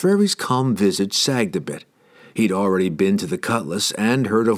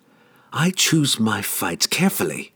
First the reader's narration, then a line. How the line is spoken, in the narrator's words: she hissed